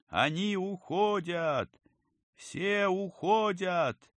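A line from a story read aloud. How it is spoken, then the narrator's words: Joyful distant shout. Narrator (Russian): радостно прокричал издали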